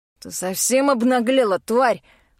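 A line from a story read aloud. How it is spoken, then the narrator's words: Angry hiss. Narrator (Russian): Зло шипит он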